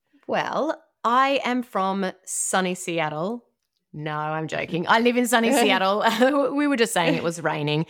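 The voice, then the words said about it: Australian accent. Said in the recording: “hear the accent in your voice ... originally from Australia ... I don't think I'm ever going to lose the accent.”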